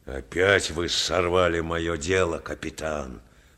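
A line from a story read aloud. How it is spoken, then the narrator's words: Angry grumble. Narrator (Russian): пробурчал злобно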